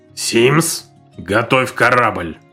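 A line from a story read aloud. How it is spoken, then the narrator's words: Commanding tone. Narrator (Russian): велел он привычным командирским тоном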